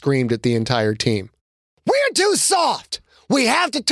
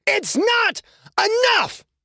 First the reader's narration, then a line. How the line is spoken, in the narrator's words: Quentin screamed